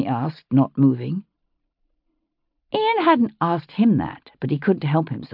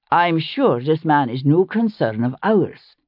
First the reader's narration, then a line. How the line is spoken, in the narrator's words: he said firmly